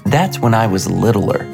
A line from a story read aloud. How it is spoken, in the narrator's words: said Brittany